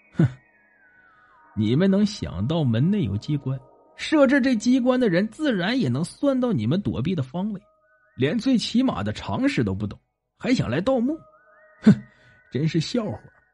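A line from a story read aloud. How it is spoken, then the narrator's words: Cold sneer. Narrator (Chinese): 黑影冷笑道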